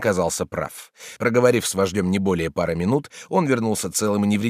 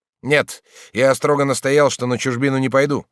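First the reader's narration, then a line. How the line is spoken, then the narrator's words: Sudden snort. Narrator (Russian): Степанов вдруг фыркнул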